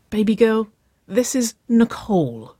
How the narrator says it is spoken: Winona exclaimed

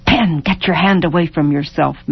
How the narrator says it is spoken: hissed, and savagely

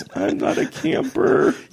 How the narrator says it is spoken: say to somebody in a squeaky voice

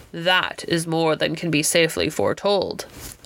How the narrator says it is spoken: observed the stranger, and there was something very stern in his deep voice

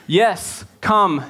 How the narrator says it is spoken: Jesus said

